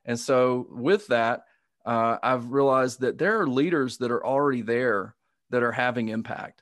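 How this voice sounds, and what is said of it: Southern US accent. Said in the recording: “your listeners might hear the Southern accent ... I probably sound like a white guy”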